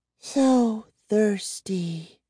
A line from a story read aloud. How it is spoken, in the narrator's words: Gwendolyn murmured, licking her dry lips